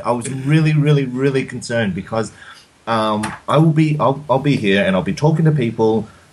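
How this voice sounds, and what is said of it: Australian accent. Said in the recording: “you haven't lost the Aussie accent to this day”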